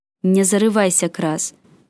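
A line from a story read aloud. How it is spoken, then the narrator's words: Fierce beastlike growl. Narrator (Russian): прорычал Элай не хуже горгов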